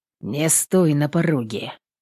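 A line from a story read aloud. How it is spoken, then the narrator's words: Gruff mutter. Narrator (Russian): опять буркнул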